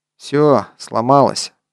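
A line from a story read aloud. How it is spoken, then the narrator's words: Dejected. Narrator (Russian): уныло прокомментировал Скопин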